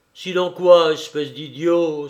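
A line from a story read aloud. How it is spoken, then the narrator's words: Exclaiming. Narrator (French): s'écria Lupin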